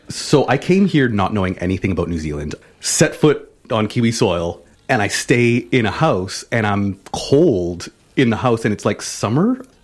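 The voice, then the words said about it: Canadian accent. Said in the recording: “I'm Canadian ... in case you couldn't tell by my accent, the out and about”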